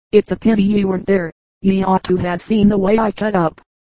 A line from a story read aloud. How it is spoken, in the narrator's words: continued proudly